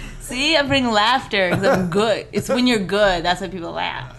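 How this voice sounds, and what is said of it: Usual voice. Nothing is said of it.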